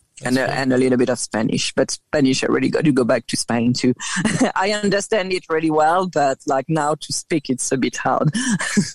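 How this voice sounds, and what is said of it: French accent in English. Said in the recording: “Has your accent changed at all from when you came over, you know, basically being a French national ... Some people just think I'm German or South Africa or things like that. Some pick straight away French. If I'm tired, my accent is really strong.”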